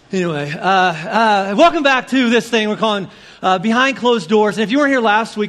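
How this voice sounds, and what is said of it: Hoarse, strained voice. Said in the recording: “I'm losing my voice because I was backstage cheering”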